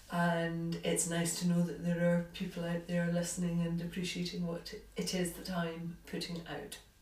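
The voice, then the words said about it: Scottish accent. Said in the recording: “although the accent is Scottish”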